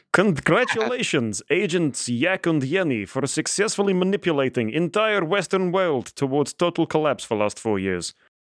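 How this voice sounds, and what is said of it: Put-on Russian accent. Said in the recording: “weirdly in English with a Russian accent”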